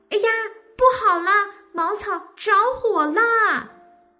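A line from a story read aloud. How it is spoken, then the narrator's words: Alarmed loud shout. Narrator (Chinese): 小兔就大叫道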